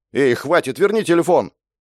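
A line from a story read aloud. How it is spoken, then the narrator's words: Shout. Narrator (Russian): выкрикнул Степан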